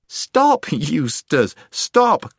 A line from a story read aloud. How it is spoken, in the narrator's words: cried Jill